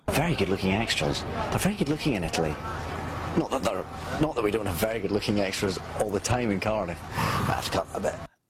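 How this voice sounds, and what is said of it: Scottish accent. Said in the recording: “The sexiest accent in the world is Scottish ... the owner of the sexiest accent in the world”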